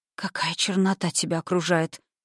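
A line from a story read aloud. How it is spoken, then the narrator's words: Hoarse voice. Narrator (Russian): произнесла она, охрипнув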